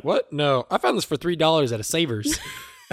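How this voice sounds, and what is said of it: Rough put-on Southern accent. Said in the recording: “not quite the Southern accent that I just gave.”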